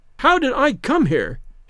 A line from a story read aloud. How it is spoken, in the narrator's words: she shrieked